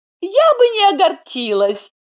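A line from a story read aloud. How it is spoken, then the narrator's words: Gloating giggle. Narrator (Russian): злорадно хихикнула Даша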